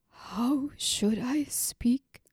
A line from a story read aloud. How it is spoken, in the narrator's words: Tomon whispered